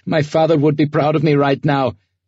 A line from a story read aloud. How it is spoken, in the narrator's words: Leonid laughed